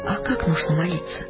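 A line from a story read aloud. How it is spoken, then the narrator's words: Quiet question. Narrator (Russian): тихо спросила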